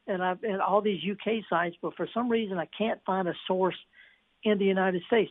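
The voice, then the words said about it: Slightly hoarse voice. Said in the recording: “I'm getting a little hoarse because I'm excited.”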